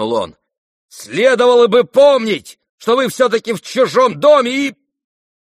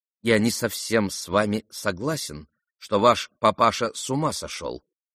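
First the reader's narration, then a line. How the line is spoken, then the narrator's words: Calm. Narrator (Russian): спокойно ответил он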